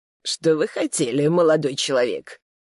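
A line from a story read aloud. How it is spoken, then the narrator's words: Cold question. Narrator (Russian): холодно спросила она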